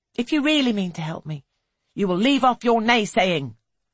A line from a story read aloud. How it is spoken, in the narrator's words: she snaps